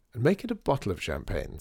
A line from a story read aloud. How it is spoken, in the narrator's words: said Artie